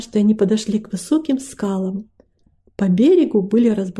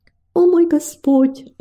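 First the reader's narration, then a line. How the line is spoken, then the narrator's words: Pleading woman. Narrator (Russian): взмолилась она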